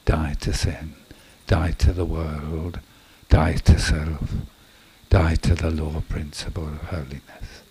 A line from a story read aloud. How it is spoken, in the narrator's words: he was saying under his breath